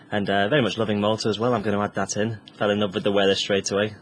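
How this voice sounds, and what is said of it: English accent. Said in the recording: “as you can probably tell by the accent, I'm not from Malta. I'm definitely English”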